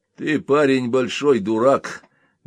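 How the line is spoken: Rough retort. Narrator (Russian): грубо возразил Ван Хорн

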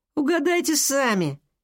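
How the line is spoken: Crowlike laughter. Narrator (Russian): Аргус снова рассмеялся своим вороньим смехом

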